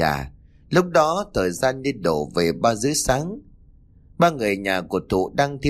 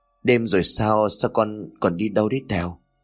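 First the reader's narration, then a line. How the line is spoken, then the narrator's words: Trembling voice. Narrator (Vietnamese): Nhàn liền run rẩy nói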